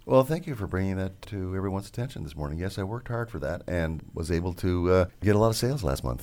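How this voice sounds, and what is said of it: Rich radio announcer voice. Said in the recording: “He's got a great radio voice ... He does have a great radio voice.”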